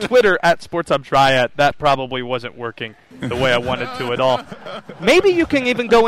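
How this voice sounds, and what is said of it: Usual voice. Nothing is said of it.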